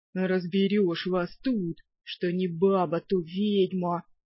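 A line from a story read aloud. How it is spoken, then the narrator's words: Booming deep bass. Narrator (Russian): раскатистым басом прогудел леший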